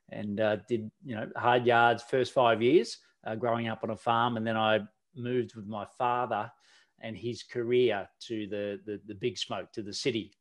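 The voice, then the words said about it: Australian accent. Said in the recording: “given my accent. I don't think I've got one, but a lot of people tell me I do ... I am from down under. In Australia”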